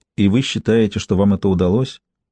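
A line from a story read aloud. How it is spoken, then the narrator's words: Gentle question. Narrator (Russian): мягко спросила Ким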